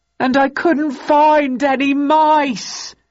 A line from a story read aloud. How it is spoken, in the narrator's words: he howled